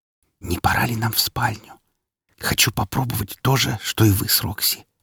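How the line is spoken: Whisper. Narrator (Russian): прошептала она

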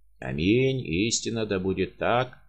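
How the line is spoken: Hollow sepulchral boom. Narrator (Russian): прогудел загробным голосом Каменский

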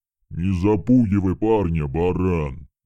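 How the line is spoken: Loud, steely. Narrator (Russian): Громко сказал он, но в его голосе была сталь

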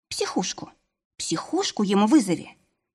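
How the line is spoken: Inner voice whispering. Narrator (Russian): шепнул внутренний голос

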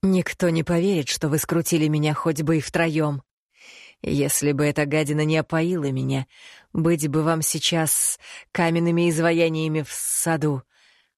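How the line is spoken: Young deep voice, through teeth. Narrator (Russian): процедил молодой, но глубокий голос, своими приятными низкими нотками

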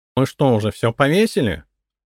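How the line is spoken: Nasal, snapping. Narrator (Russian): окрысился гнусавый вожатый

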